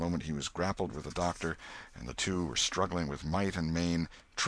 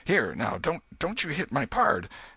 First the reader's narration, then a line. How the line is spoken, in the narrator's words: exclaimed